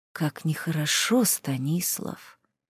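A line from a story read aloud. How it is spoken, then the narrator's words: Ghostly whisper. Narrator (Russian): прошептал призрак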